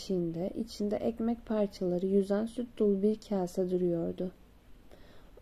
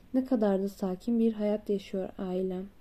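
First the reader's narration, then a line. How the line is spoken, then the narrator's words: Plain. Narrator (Turkish): dedi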